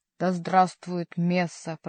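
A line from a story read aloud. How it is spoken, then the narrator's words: Growl. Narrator (Russian): прорычал Гранфло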